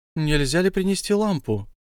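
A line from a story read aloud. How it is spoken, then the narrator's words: Timid question. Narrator (Russian): робко спросил Бильбо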